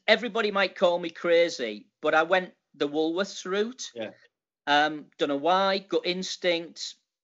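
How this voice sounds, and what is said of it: Northern English Middlesbrough accent. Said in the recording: “leave home from Middlesbrough, which, as you know, is pretty far north? We talk a different language up here in terms of the accent.”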